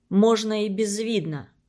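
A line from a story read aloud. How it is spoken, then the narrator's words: Plain. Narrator (Russian): ответил Мишка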